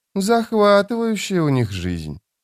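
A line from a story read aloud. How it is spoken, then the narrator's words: Drawl. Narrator (Russian): протянула Фелисин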